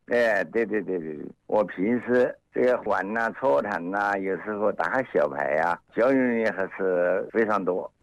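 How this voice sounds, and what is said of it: Regional Chinese accent. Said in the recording (Chinese): “听你的口音，你是哪里人啊”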